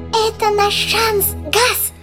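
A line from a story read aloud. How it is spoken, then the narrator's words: Squeaky voice. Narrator (Russian): пропищал Жак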